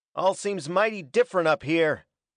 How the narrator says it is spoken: was Hackett's shouted comment

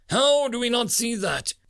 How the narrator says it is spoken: He blurted out

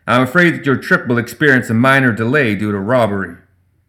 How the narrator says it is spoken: he bellowed

